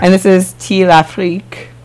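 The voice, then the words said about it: Fake French accent. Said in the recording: “I just butchered that with my fake French accent.”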